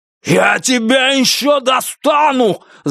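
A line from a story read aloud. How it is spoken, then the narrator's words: Yelling back. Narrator (Russian): заорал в ответ Бастер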